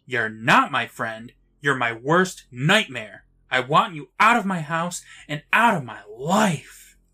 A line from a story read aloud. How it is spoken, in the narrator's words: Sam yells